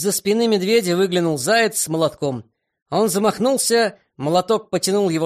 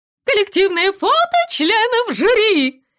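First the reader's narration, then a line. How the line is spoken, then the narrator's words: Sudden shriek. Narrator (Russian): Вдруг завизжала кудаха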